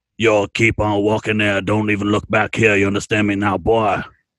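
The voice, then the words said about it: Put-on character accent, menacing tone. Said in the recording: “I'll play one of the, you know, one of the racist guys back in current times ... I like the accent.”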